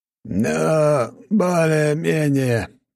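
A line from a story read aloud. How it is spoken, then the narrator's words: Mumbling grumpily. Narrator (Russian): пробурчал наставник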